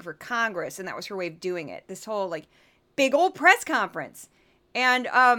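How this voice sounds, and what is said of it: Usual voice. Nothing is said of it.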